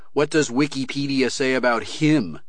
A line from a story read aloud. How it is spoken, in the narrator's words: Kerensky sneered